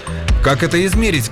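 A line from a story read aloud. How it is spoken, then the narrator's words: Familiar voice shouting from below. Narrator (Russian): крикнул снизу знакомый голос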